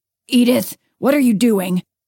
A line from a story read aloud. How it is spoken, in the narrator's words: Harold roared from the kitchen